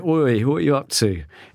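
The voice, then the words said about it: Put-on Dorset accent. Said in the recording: “In a Dorset accent.”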